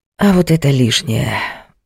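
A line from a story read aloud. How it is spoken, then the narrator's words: Sighing. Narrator (Russian): вздохнул он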